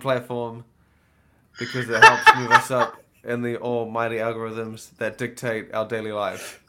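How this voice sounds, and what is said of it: New Zealand accent. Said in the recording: “we've got the New Zealand accent, so it sounds classier than coming from the American”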